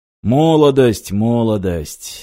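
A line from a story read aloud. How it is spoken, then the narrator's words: Sighing. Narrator (Russian): вздохнул Юрий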